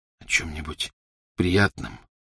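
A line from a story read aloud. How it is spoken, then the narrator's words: Hoarse repetition. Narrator (Russian): хрипло повторил он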